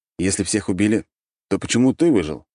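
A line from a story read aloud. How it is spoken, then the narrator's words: Plain. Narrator (Russian): спросил я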